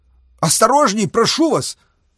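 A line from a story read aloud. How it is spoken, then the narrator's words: Exclaimed. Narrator (Russian): воскликнул Георгий Сергеевич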